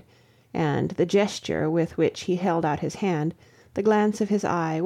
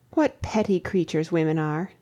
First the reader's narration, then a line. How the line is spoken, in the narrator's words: I exclaimed